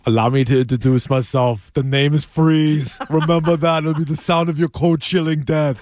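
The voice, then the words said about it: Imitates a movie villain's voice. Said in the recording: “Impression ... That's not a bad impression ... Good impression for a bad movie”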